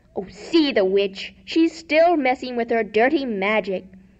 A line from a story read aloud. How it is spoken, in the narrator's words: yelled the mob